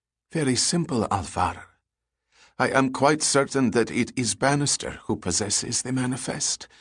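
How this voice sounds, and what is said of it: Usual voice. Nothing is said of it.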